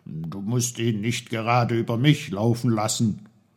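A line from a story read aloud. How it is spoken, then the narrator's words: Calling. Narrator (German): rief er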